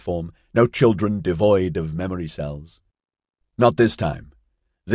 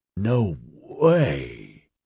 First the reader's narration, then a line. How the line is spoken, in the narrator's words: Adam groaned